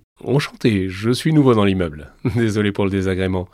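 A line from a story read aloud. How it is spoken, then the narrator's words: Deep-voiced reply. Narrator (French): répond la silhouette d'une voix grave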